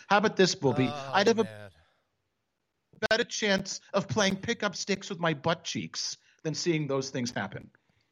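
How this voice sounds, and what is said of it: Put-on Jewish mother accent. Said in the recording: “do a Jewish mother accent ... I just slipped out of that accent”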